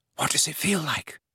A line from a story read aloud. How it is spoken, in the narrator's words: whispered Hermione